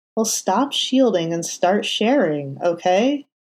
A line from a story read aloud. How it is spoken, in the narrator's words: Foggy said pleadingly